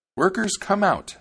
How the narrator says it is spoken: she cried

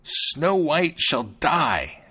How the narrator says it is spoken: she exclaimed

